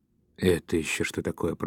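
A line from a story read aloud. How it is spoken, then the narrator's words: Mumbling. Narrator (Russian): пробормотал Дауге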